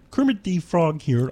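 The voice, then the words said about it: Nasal Kermit the Frog impression. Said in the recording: “Kermit ... That's in your nose, and that's also the voice of Ernie ... A vocal impersonation.”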